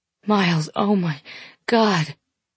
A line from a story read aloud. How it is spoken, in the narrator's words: I moan his name and God's name and even shout to Jesus a couple of times